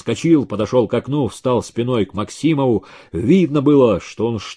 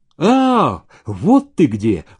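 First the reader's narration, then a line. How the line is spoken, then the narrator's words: Exclaimed. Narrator (Russian): воскликнул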